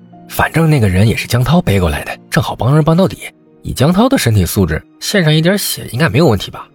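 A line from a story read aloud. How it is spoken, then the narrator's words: Quiet muttering. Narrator (Chinese): 自己又小声嘀咕起来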